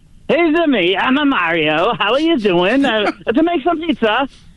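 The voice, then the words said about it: Bad Mario impression, Borat-like. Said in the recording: “a Mario impression from the video game Super Mario Brothers ... Oh, that's not good. ... That's my name's a Borat. That's what it sounded like. It didn't sound like Mario.”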